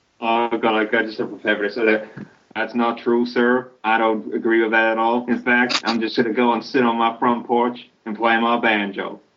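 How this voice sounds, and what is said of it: Exaggerated redneck American accent. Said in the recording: “your redneck impersonation, even more redneck than last time ... That was bad.”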